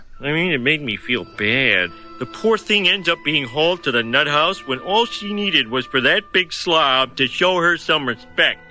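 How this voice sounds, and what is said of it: Homer voice with Chicago accent. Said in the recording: “You really hear Dan Castellaneta's Chicago accent come out with sincere hope”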